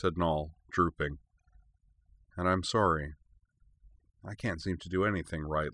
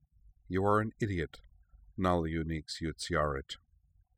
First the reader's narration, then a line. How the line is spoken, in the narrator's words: Lakpa murmured